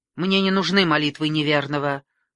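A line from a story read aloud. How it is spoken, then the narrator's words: Sharp. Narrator (Russian): резко говорю я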